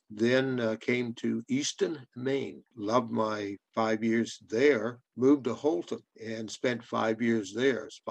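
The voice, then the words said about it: Nova Scotian accent with Southern traces. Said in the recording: “a Canadian from Nova Scotia with an accent ... I got a little South in my mouth ... pretty mongrel”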